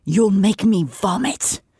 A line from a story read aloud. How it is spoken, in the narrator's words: Amryn hissed